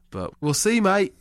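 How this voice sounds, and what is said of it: Poor put-on English accent, sounds Australian. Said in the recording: “You going to come back with an accent? ... That's more Australian, but we're doing an okay job. Nah, that's terrible. That's awful. That's quite bad.”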